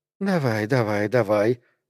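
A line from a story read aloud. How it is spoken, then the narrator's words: Whisper inside the mind. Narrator (Russian): прошептала в его сознании Эмили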